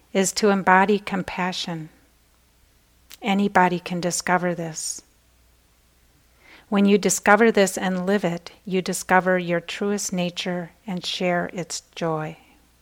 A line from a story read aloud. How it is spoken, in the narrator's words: said quietly